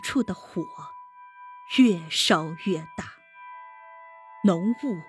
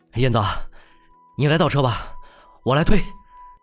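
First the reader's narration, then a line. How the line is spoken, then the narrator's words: Shouting. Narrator (Chinese): 顾城立即 喊道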